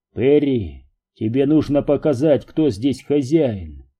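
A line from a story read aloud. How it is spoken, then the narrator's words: Calm advice. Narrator (Russian): спокойно посоветовал Дью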